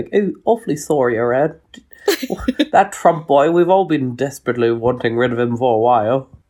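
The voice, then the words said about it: Put-on posh English accent. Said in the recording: “put on a posh accent”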